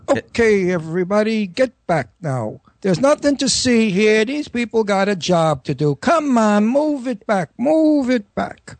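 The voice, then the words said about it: Tough, sarcastic cop voice. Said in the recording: “I'm supposed to be a sarcastic, nasty cop. ... Brooklyn accent ... very tough, rough Brooklyn and nasty”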